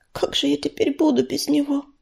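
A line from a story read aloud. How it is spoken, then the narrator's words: Frightened whisper. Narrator (Russian): прошептала Мотылинка, испуганно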